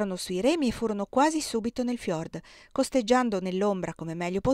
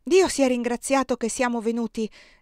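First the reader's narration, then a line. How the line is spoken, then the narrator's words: Exclaiming. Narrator (Italian): esclamò Erika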